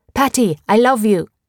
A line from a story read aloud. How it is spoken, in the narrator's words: He would shout